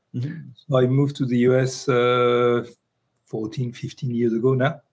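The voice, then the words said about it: Noticeable foreign accent. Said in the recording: “as you can tell, I still have the accent”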